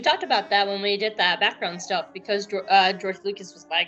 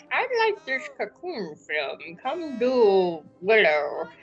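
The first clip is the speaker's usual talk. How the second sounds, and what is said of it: Poor imitation of another person's voice. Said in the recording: “my George Lucas impression is horrible”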